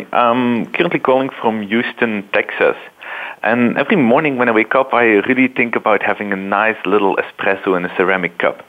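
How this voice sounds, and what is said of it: Belgian accent. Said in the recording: “you can tell from my accent that I wasn't born and raised here... I come from a little country called Belgium”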